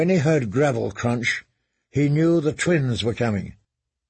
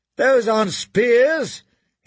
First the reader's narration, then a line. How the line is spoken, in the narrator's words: shouted